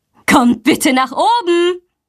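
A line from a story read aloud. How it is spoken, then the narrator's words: Calling out. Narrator (German): ruft sie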